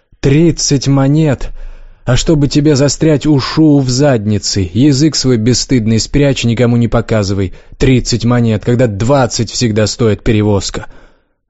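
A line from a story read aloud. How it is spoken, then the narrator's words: Flustered angry shout. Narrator (Russian): младший интендант не удержался, покраснел и закричал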